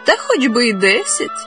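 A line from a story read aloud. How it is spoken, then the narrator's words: Young woman laughing. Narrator (Ukrainian): засміялась молода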